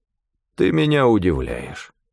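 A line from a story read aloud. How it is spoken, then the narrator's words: Even, level voice. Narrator (Russian): ровным голосом произнес Амнис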